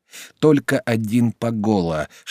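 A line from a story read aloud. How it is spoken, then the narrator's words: Whispered through teeth. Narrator (Russian): шептал сквозь зубы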